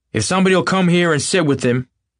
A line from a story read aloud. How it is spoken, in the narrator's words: he snapped authoritatively